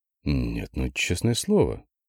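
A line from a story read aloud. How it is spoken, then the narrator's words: Quiet snort. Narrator (Russian): тихо фыркнул Андрей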